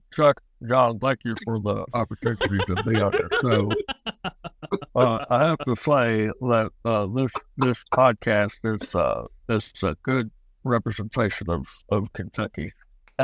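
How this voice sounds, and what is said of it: Imitates another person's voice. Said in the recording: “as Mitch McConnell... that was me doing an impression... That was a pretty damn good impression.”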